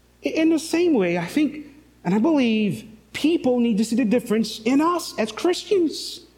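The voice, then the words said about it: St. Lucian accent. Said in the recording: “St. Lucian ... They could tell the difference just by my accent.”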